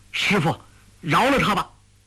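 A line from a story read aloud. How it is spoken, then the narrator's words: Shouting. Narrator (Chinese): 郭靖叫道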